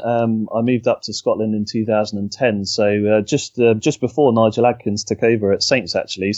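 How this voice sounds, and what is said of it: Thick Hampshire English accent. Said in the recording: “I've got a thick Hampshire accent still”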